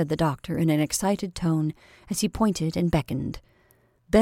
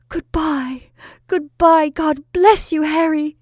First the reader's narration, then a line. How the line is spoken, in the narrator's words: sobbing as if her heart was broken